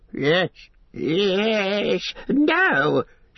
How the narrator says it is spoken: shrieked Gollum

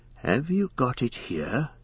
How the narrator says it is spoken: he asked in a whisper

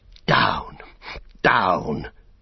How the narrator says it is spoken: he gasped

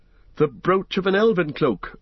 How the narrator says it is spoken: cried Legolas and Gimli together

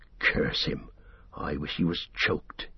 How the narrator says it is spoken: he muttered

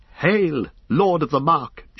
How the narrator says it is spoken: she cried

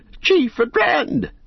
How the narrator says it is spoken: they shouted

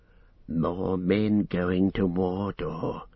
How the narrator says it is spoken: he said in a low voice

